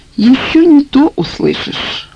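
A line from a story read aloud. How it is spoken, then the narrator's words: Gloomy. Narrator (Russian): мрачно сказал Вячеслав Иванович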